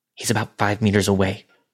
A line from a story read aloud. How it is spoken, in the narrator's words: From behind me, Elle whispered